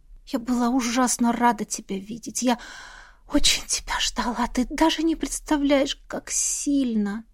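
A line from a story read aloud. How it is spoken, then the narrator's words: Tearful whisper. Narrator (Russian): Прошептала я, даже не надеясь сдержать слезы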